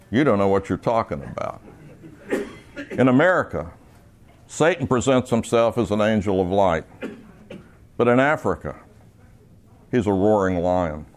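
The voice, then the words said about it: Gentle British accent. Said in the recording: “in a nice way with a British accent said”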